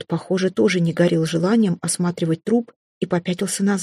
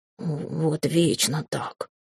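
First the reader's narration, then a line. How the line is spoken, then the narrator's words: Displeased muttering. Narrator (Russian): пробурчал он недовольно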